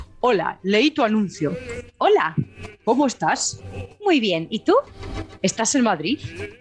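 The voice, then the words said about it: Acts out male and female voices. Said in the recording (Spanish): “Voy a intentar poner voz de tío y tía.”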